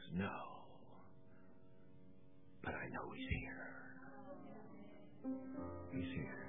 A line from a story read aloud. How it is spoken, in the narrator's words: whispered back and he says